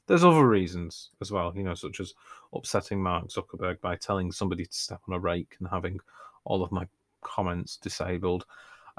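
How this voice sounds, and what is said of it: Northern English accent. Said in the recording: “somebody with my accent, which is important because I live in the north of England”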